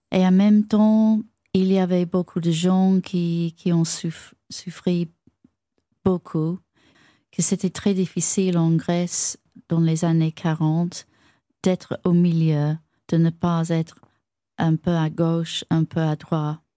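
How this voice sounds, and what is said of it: French with British accent. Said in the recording (French): “Avec un bel accent britannique.”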